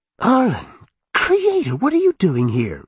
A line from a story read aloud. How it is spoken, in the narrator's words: Alyssa cried